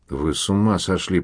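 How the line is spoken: Wheezed, hoarse. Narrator (Russian): прохрипел Пино

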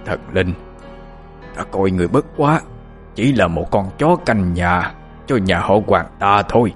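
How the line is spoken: Harsh, feeble rasp. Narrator (Vietnamese): Ông gằn giọng thều thào nói

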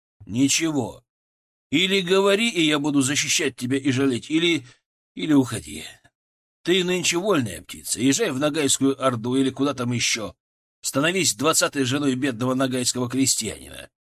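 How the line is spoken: Plain. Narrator (Russian): сказал я

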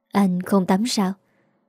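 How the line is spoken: Soft, quiet voice. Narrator (Vietnamese): Hà Linh khẽ giọng

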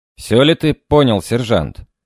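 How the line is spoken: Stern question. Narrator (Russian): строго спросил я

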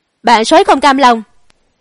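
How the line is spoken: Furious, loud shout. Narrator (Vietnamese): Ngột Đa Cáp trừng mắt, trong đôi mắt hắn hằn đầy tơ máu, ngửa mặt lên trời hét lớn

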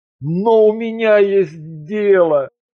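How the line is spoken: Growled. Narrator (Russian): Кронос рыкнул

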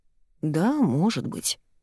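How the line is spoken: Unsure mumble. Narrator (Russian): неуверенно бормочет Тильда

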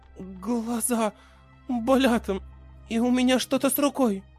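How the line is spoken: Uncertain. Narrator (Russian): сказала она неуверенно

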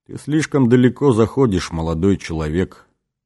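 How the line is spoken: Cold, detached tone. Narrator (Russian): промолвил отец-координатор холодным, отчужденным тоном

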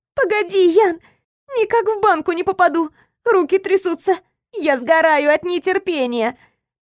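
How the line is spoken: Moaning. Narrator (Russian): Простонала она

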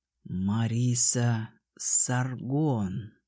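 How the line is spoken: Slow speech. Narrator (Russian): проговорил медленно Артас-старший

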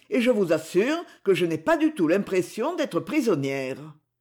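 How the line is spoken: Quick, lively. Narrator (French): dit-elle vivement

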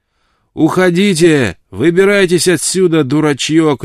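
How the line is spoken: Shout. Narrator (Russian): крикнул им Джейкоб Уэллс

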